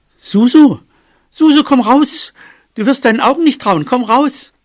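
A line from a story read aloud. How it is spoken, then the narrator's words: Excited call. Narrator (German): Bobo rief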